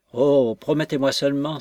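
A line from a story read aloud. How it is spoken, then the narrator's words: Exclaimed. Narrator (French): s'écria Jones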